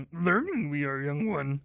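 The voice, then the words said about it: Yoda-like character voice. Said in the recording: “my Yoda impersonation ... that's so good”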